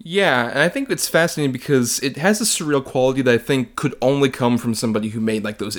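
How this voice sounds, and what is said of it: Usual voice. Nothing is said of it.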